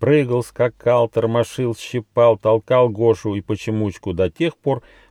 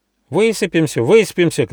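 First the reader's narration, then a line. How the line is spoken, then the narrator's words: Shouting. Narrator (Russian): кричал Рыж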